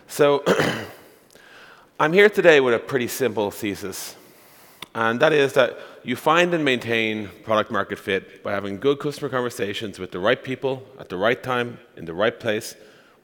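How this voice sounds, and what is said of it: Irish accent. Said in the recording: “I am from Ireland. That's the accent you're hearing.”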